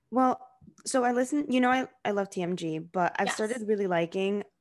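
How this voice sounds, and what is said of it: Out of breath, breathy speech. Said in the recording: “I'm sorry if I sound so out of breath. I don't know why I'm so out of breath all of a sudden.”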